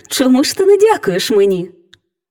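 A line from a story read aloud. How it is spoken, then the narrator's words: Cheerful, smiling. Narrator (Ukrainian): весело всміхаючись, мовила фея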